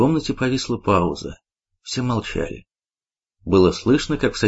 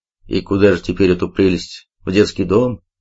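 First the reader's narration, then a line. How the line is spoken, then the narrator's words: Deep bass voice. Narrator (Russian): пробасил генерал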